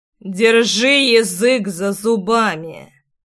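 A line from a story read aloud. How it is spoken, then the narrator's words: Through gritted teeth. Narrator (Russian): процедил Ривейналс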